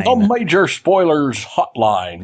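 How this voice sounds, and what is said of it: Imitates another person's voice. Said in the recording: “my Walter Cronkite impersonation”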